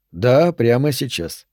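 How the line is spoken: Calm confirmation. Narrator (Russian): спокойно подтвердил Аллен

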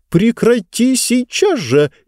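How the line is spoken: Nervous shriek. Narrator (Russian): нервно взвизгнула книга

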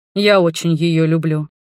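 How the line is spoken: Completely calm reply. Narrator (Russian): совершенно спокойно ответил Арман

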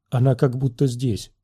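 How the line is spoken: Dejected, sinking voice. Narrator (Russian): сказала Бент упавшим голосом

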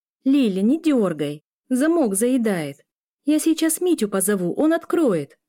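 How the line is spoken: Shouted. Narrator (Russian): прокричала Эля

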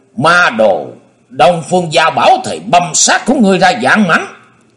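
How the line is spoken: Demonic roar. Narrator (Vietnamese): Nhiệt Nhĩ Hầu gầm lên như quỷ dữ

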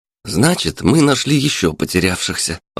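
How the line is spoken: Joyful summing up. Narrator (Russian): радостно подытожил волонтер

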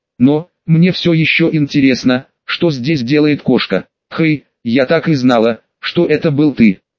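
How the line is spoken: Loud whisper. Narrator (Russian): громким шепотом заявила Пиксибоб

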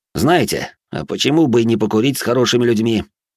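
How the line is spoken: Abrupt change of mind. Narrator (Russian): резко передумал я

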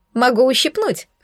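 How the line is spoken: Short laugh. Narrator (Russian): хохотнула я

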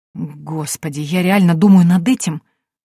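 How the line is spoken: Confused whisper. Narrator (Russian): растерянно прошептала я

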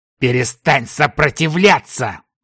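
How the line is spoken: Angry hiss through teeth. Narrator (Russian): Зло процедил противник

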